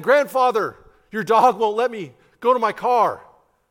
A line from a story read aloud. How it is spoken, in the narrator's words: John yelled